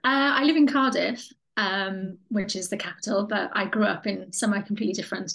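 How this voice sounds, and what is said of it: Welsh accent. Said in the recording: “calling in from Wales in the UK, hence the funny accent ... The amazing accent.”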